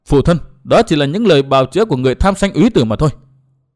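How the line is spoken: Cold reply. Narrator (Vietnamese): Uyển Thanh lạnh lùng đáp

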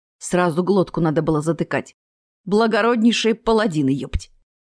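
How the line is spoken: Stern. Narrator (Russian): рыжебородый строго сказал

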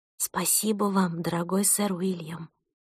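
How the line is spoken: Whisper to oneself. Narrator (Russian): прошептала я про себя

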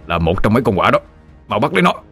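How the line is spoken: Old man shouting. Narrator (Vietnamese): Lão Thọ Phát hét lên

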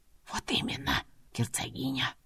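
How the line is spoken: Whispered. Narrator (Russian): шепотом произнес управляющий

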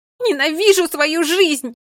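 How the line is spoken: Scream. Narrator (Russian): закричала она

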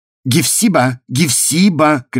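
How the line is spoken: Loud expressive shout. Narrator (Russian): кричал довольно громко и выразительно

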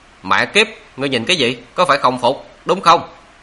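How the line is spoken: Angry cursing. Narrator (Vietnamese): Đại hán nọ tức giận há miệng mắng

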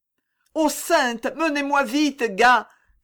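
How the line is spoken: Poor mother crying out. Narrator (French): s'écrie la pauvre mère

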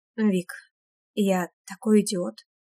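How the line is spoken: Quiet, repentant voice. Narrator (Russian): тихонько сообщает мне Ветров, и голос у него покаянный

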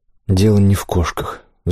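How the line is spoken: Sighing, disappointed. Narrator (Russian): вздохнул он, и ей послышалось в его голосе некоторое разочарование

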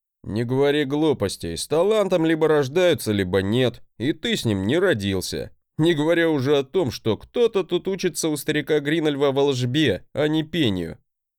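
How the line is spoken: Laughing. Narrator (Russian): хохотнул он

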